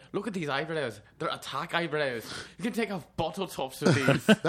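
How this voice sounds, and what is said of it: Put-on sophisticated Edinburgh Scottish accent. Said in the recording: “You have like a sophisticated Scot. Like you're from Edinburgh. ... you're from a university town.”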